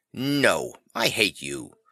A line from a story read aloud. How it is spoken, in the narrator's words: Vivi, fiercely